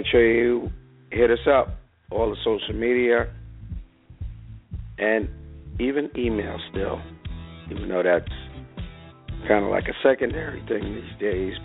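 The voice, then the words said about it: Hoarse, nearly lost voice. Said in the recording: “my voice just about out”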